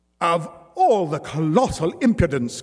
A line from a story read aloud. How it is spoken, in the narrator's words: cried the matronly Madame Samson